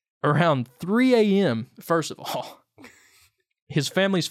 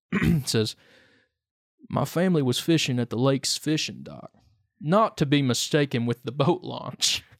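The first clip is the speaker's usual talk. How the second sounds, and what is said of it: Put-on Appalachian accent. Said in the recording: “Should I do this in like a voice from like someone from Appalachia? ... I'm going to give it an accent ... I am going to do an accent.”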